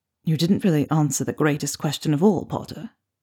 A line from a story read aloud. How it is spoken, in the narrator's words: Draco whispered